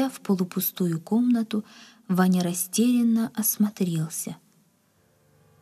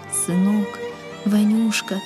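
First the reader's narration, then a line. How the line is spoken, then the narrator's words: Father's tearful whisper. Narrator (Russian): шептал отец, и по впалым морщинистым щекам текли крупные слезы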